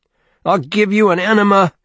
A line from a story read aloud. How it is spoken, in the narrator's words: he kept screaming